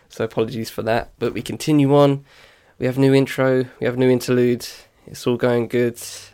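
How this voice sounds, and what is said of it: Congested, nasal voice. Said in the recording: “my nose has been a bit bunged up. That's why I sound a bit nasally.”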